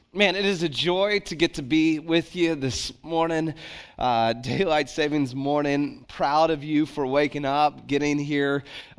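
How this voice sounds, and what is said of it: Unusually deep morning voice. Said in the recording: “I got a nice deep voice for you this morning”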